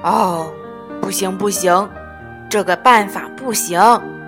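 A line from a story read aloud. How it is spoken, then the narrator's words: Sighing elephants. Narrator (Chinese): 大象们都叹气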